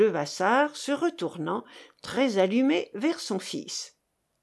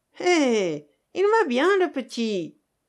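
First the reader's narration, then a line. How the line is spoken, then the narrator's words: Sneering laugh. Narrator (French): ricana Félisa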